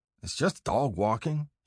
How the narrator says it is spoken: he mutters

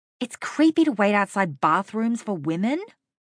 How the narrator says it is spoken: I snapped at him

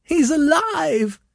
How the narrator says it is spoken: cried Mrs

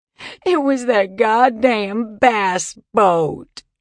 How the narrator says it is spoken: she said, sobbing

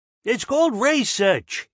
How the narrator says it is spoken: had snapped

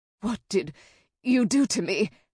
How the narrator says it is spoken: asked with a gasp

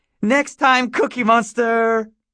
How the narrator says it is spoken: Joey erupted and broke down in giggles again

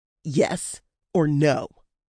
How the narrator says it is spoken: rumbling snarl

